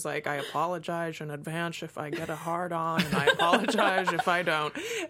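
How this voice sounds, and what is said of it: Bad Sean Connery impression. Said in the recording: “That's the worst Sean Connery impression in the world.”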